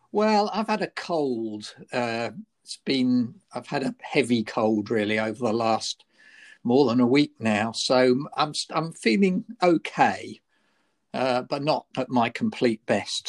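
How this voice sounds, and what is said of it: Slightly croaky voice. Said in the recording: “my voice might be a little bit croaky today”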